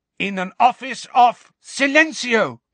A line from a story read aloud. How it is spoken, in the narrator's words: cried Hermione